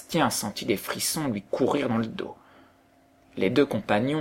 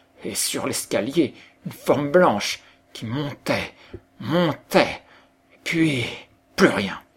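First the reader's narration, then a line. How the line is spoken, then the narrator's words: Breathless, frightened reply. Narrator (French): répondit Jean, tout haletant de frayeur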